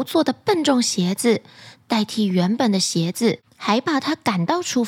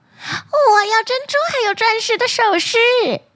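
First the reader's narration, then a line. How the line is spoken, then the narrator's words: Calling out. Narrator (Chinese): 二女儿叫道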